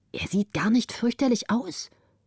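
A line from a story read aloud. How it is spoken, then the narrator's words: Whisper. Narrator (German): flüsterte sie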